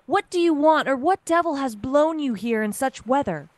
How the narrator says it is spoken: Tom Willis cried out

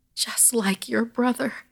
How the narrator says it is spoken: Gran sobbed at my mother

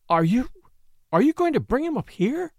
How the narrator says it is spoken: She gasped

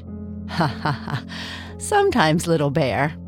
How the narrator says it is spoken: Papa Bear said, laughing

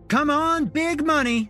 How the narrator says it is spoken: Shelby called out

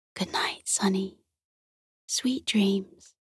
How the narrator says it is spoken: whispered

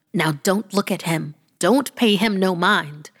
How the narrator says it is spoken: my granny snapped

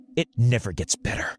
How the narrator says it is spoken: Lucy spat

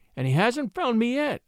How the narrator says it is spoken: moaned the miniature painter

